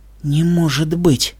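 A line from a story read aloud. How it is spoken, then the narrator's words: Shocked whisper. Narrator (Russian): потрясенно прошептала она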